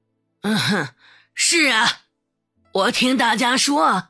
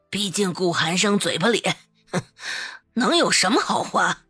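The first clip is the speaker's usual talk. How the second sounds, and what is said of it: Quiet muttered grumbling. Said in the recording (Chinese): “小声的叨叨了一句”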